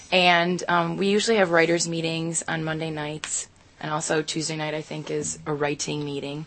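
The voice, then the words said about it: Flat monotone speaking voice. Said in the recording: “It sounds like you're just telling your voice. You're just pumped. ... I'm very monotone.”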